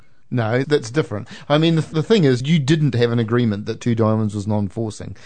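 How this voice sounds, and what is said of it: Usual voice. Nothing is said of it.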